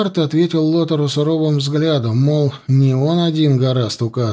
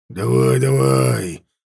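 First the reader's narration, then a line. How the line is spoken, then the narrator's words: Menacing growl, warg. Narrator (Russian): угрожающе прорычал ворг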